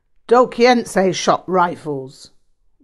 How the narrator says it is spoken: Rinpoche barked

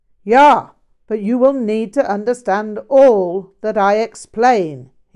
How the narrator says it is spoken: he barked

